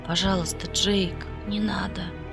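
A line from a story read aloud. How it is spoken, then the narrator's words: Pleading moan. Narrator (Russian): простонала я умоляюще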